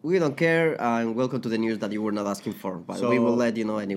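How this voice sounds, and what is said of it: Strong non-native English accent. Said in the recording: “really bad English ... We have a really strong accent”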